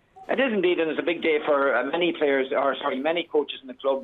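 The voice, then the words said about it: Irish accent, not Tipperary. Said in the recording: “that's not a Tipperary accent that you're sporting”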